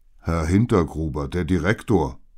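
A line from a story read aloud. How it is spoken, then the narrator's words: Calling over noise. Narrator (German): rief mir Carlo über den Lärm hinweg zu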